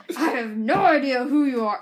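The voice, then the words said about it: Put-on character voice. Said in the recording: “I should do it in, like, a character voice.”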